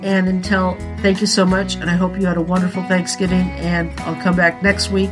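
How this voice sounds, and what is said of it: Strained, fading voice. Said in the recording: “my allergies are kicking my butt and I'm losing my voice”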